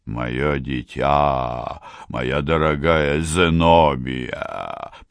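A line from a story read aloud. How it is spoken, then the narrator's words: Booming voice. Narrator (Russian): прогудел мистер Брокльбанк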